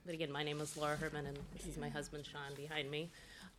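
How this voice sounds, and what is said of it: Voice affected by a cold. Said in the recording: “I have a little bit of a cold, so hopefully you can hear me okay.”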